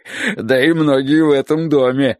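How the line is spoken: Sudden loud laughter. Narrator (Russian): внезапно расхохотался Хозе

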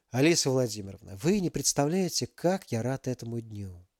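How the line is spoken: Tender. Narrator (Russian): нежно проговорил великий князь

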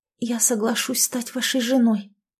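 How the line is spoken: Whisper. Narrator (Russian): прошептала она

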